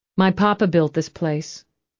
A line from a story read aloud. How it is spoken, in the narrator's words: Angie had said